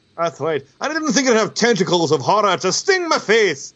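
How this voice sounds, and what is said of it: Unidentified put-on accent. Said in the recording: “I don't know what this accent is. I'm enjoying it, though.”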